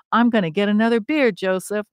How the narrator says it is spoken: she yells

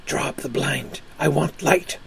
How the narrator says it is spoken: he said to me in a sharp whisper

